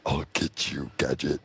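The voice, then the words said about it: Good cartoon villain impression. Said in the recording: “a really good impression”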